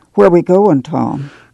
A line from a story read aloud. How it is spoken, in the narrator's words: Ma asked timidly